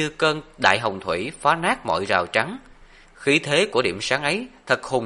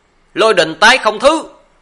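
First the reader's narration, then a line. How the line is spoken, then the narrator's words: Frenzied loud shout. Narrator (Vietnamese): Lý Ngang cũng điên cuồng hét lớn một tiếng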